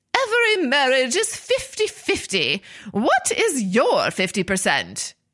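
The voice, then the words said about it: Put-on British accent. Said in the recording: “I'm using a British accent every time I every time I imitate, imitate these people”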